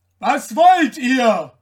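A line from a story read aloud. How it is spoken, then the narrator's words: Rider calling out, confronted. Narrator (German): rief der Reiter, als er sich so kriegerisch empfangen sah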